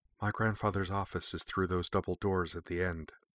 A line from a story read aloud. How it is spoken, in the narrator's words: Mai whispered